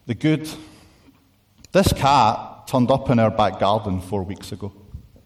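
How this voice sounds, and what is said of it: Speaker's own regional accent. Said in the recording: “I just say it with a U in it because of my accent.”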